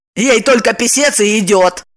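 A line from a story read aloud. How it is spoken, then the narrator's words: Snide. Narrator (Russian): ехидно вставила Ева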